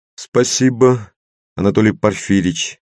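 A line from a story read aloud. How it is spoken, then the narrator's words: Flat colorless voice. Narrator (Russian): бесцветным голосом отозвался я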